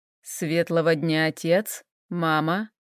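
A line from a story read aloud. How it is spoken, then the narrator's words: Cold. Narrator (Russian): холодно произнес Хэл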